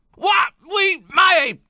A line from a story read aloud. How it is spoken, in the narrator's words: Tlakanyana screamed